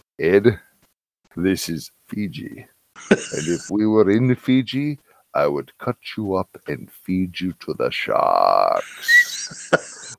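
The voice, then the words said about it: Thick Fijian accent, very deep voice. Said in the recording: “he had a very thick accent because he was from Fiji. And it was a very deep voice.”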